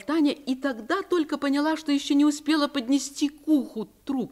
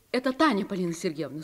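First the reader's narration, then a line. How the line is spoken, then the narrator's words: Plain. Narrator (Russian): сказала Таня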